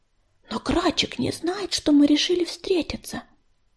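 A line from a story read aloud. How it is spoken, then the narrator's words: Whisper. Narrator (Russian): прошептала Ласточка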